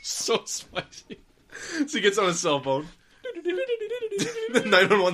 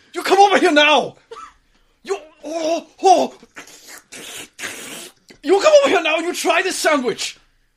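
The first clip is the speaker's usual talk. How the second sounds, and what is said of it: Exaggerated mock Chinese accent. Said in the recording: “Chinese accent ... Insulting Chinese accent ... The insulting American Chinese accent.”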